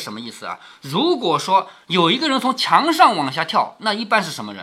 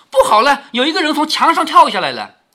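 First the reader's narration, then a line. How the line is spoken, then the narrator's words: Alarmed, breathless shout. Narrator (Chinese): 金星玻璃从外面跑进来，口内喊着说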